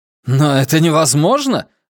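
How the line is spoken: Unusually animated exclamation. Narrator (Russian): воскликнул Филипп Леонидис с таким оживленным голосом, какого я раньше от него не слышал

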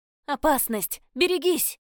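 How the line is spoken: Shouted. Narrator (Russian): выкрикнули

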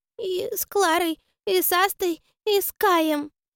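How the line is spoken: Girl's sobbing lament. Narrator (Russian): причитала девочка, всхлипывая

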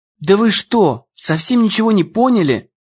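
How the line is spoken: Exclaiming. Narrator (Russian): воскликнула Эмми

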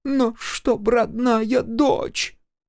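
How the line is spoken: Old woman sobbing. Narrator (Russian): Баба Нюра содрогнулась всем телом от всхлипа

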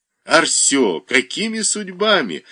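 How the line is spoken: Joyful greeting. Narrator (Russian): радостно приветствовал его Коньков

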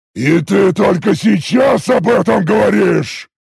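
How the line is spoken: Roar. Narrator (Russian): Проревел я

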